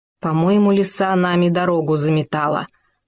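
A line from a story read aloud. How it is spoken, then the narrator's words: Groaning. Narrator (Russian): простонал Хома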